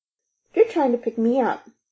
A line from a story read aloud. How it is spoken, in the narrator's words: blurted